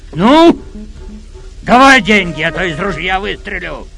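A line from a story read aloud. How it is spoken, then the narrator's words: Hunter's shout. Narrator (Russian): крикнул охотник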